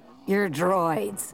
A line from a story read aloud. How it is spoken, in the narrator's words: the bartender growled